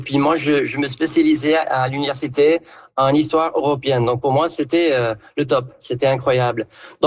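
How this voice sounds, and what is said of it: Southern French accent. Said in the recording (French): “en prenant l'accent du coin ... j'entendais un accent du sud”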